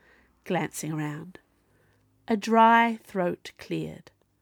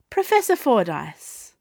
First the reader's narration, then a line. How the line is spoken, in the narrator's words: Viola said brightly